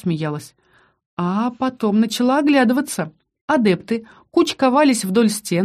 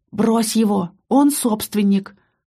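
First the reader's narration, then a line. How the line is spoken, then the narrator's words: Loud whisper. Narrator (Russian): посоветовал мне Киран громким шепотом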